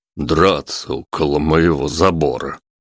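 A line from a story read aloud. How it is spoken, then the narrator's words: Muttering. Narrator (Russian): бормотал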